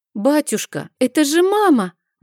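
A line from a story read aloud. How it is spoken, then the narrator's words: Sudden exclamation. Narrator (Russian): воскликнул вдруг Мишель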